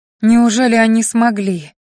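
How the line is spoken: Breathless exhale. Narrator (Russian): выдохнула я

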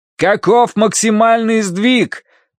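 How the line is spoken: Shouting into phone. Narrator (Russian): прокричал Данорти в трубку

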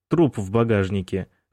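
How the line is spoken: Chuckling. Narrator (Russian): хохотнул Индри

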